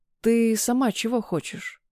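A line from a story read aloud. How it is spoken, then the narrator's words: Hoarse, after long pause. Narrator (Russian): После затянувшейся паузы прохрипел Сева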